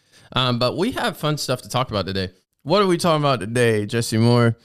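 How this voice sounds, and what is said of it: Congested, croaky froglike voice. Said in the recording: “I went through a whole box of tissues and I was sneezing the whole time ... that's why I sound like this ... he sounds like a frog”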